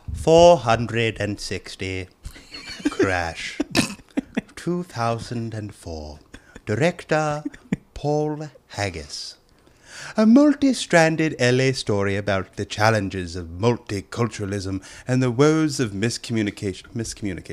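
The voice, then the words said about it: Put-on posh old British accent. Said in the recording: “read it in a Cockney accent ... it's not close. Cockney. It's going to be legit Brit, old British white guy.”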